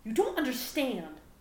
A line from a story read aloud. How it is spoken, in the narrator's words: Gohan yelled indignantly